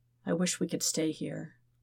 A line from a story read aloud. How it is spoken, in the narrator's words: Zuko murmurs